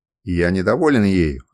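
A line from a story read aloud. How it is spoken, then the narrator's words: Irritated, repeating. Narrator (Russian): раздраженно повторил Сурбус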